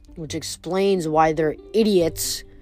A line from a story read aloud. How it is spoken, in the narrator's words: Keon growled